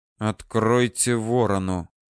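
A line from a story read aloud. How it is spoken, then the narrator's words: Low, commanding. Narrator (Russian): Ворон вполголоса повелительно произнес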